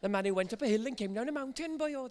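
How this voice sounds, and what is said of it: Put-on Welsh accent. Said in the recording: “I'm a Welshman, really. I should talk like this.”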